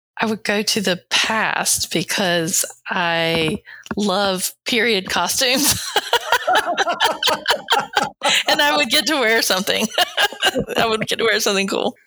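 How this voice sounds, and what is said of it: Mild Southern US accent. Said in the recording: “my accent, but there are people with much deeper accents than mine. But my accent's pretty Southern.”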